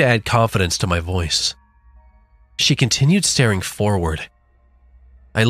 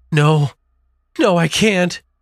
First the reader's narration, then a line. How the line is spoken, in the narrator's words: she said, sobbing